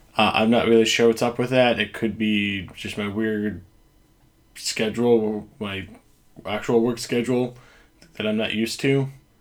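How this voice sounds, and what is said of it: Hoarse, fading voice. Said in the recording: “I kind of am losing my voice, so if it goes in and out at different points during the podcast here”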